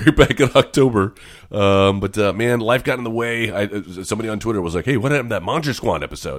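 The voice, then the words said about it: Raspy, hoarse voice. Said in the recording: “apologies if you can hear the sound of my voice. I'm recovering from a little bit of a little bit of a cold that I had over the weekend, so I'm extra raspy today”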